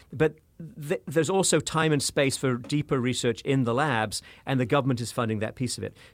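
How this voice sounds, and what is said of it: British accent. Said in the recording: “I'm from the United Kingdom, as you may have guessed from my accent.”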